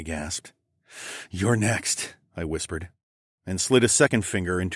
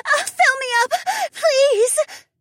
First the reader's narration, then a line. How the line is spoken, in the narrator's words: Trina screamed as her body shivered and trembled with her climax